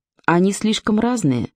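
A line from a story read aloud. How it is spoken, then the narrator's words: Calm explanation. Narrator (Russian): спокойно объяснила Вера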